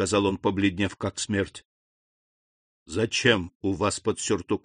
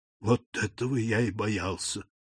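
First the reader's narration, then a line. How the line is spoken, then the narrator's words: Whispered. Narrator (Russian): прошептал Морель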